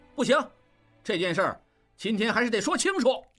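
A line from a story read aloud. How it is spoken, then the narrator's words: Loud yell. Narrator (Chinese): 应震扯开嗓子喊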